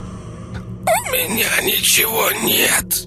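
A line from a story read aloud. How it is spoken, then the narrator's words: Choked wheeze. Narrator (Russian): прохрипела сдавленным горлом девушка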